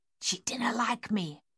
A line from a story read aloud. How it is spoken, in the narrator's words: Miss Waits whispered